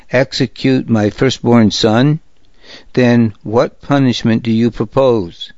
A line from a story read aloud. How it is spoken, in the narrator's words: asked Maka, her voice strained